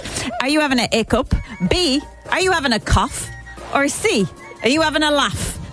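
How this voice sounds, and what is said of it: Put-on accent. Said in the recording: “I don't know why I'm doing the accent.”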